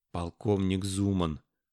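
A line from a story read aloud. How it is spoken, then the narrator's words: Whisper. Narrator (Russian): шепотом произнес Леон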